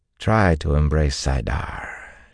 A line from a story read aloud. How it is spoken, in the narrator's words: she drawled